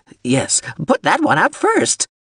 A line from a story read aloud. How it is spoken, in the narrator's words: the shuttle screeched